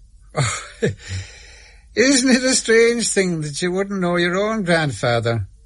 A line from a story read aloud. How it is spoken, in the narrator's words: said with a laugh